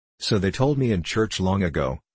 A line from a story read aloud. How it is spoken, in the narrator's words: said the soldier, coldly